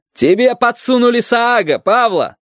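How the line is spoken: Shouting after someone. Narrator (Russian): крикнул он ей в спину

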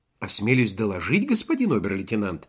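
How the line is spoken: Quiet answer. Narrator (Russian): тихо ответил Швейк

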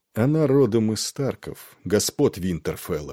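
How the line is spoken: Calm. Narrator (Russian): отвечал Нед спокойно

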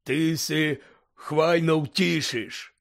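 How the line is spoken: Hoarse reply. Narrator (Ukrainian): хрипко озвався Гегріт

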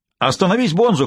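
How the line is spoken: Shouting. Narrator (Russian): кричал Динг

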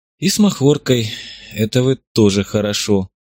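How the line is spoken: Hoarse, then sudden sob. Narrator (Russian): прохрипела Зотова и внезапно всхлипнула

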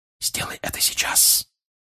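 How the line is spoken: Whisper. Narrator (Russian): прошептал отец

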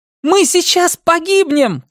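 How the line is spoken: Screaming. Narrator (Russian): кричала Хакль

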